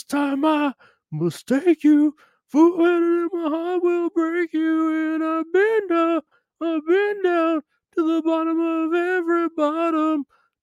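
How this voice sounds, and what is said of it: Imitates a band's singing voice. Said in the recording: “my impression of a Canadian band that nobody likes”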